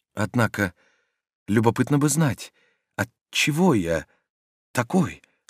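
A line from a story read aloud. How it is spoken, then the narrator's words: Whisper. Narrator (Russian): сказал он опять шепотом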